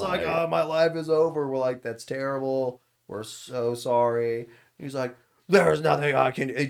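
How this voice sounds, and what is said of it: Usual voice. Nothing is said of it.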